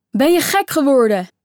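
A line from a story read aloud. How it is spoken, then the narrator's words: Called out. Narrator (Dutch): riep Daniel nog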